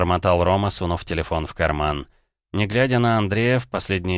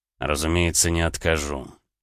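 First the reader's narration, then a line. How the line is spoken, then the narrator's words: Through gritted teeth. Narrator (Russian): сквозь зубы процедил Гаранин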